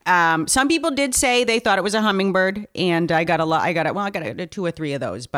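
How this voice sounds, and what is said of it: New England accent. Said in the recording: “I detected an accent. ... New Hampshire.”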